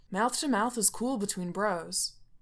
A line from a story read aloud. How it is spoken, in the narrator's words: Coach Finstock says earnestly